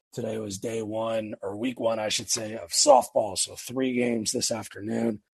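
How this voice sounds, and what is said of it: Slightly hoarse voice. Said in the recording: “My voice sounds a little bit hoarse tonight. ... sun got to me just a little bit”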